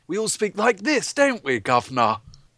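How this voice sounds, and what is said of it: Put-on stereotypical British accent. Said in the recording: “when you think of a British accent, that's what people think that we are, or how we all speak”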